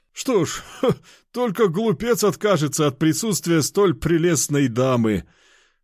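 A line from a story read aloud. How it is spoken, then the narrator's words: Booming laughter. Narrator (Russian): расхохотался здоровяк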